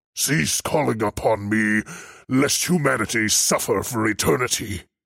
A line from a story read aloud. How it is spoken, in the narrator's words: he bellowed